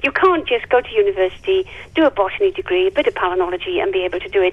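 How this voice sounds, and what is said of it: Strong Welsh accent. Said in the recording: “your Welsh accent is still there, but I can hear it strongly.”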